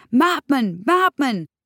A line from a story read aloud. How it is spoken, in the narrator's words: someone's shouting after me, shouting